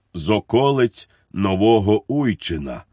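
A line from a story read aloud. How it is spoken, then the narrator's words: Sad voice. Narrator (Ukrainian): смутним голосом відізвався цісарсько-королівський панотець Мартінець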